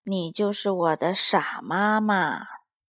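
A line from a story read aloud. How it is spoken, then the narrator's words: Muttering to himself. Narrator (Chinese): 他自言自语的对着那只鹅嘟囔着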